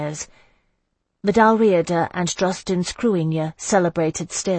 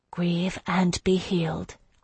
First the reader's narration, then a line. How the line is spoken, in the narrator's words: I whispered